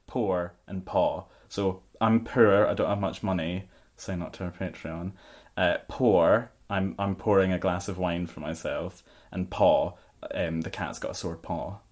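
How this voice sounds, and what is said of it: Own accent, distinct poor/pour/paw vowels. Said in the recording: “Three different pronunciations of my accent”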